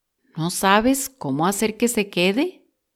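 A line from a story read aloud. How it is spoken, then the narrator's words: Plain. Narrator (Spanish): dijo otro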